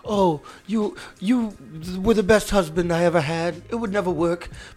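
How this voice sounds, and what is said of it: Badly done put-on accent. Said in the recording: “That's my only accent that I got. ... that's terrible. That's quite terrible. That's terrible.”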